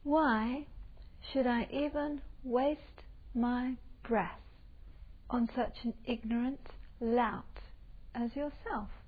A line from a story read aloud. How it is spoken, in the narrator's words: the little Buddhist monk with a very gentle, sweet voice says to him, very calmly